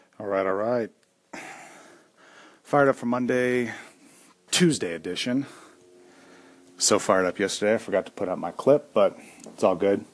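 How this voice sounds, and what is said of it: Out of breath, panting speech. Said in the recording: “out of breath, just got done working out”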